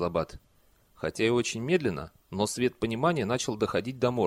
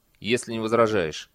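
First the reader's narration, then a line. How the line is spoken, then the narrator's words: Firm, authoritative tone. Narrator (Russian): добавил он как можно более твердым и авторитетным тоном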